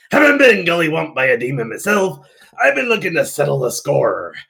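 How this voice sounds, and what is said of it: Character voice with an accent. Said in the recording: “I love that you write in accent, too.”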